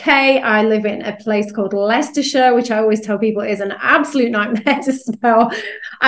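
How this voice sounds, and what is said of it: British English accent. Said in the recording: “as you can probably tell from my accent, I'm over here in the UK.”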